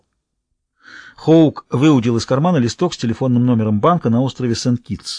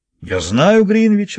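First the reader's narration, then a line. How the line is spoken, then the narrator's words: Man, joyful. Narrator (Russian): радостно отреагировал мужчина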